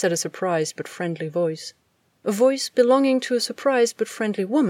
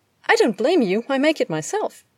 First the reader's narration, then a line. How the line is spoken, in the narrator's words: Kara Danvers told her happily